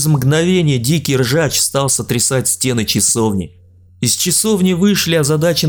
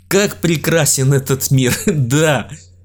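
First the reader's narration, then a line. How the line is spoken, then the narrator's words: Loud burst of laughter. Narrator (Russian): Илья в голос расхохотался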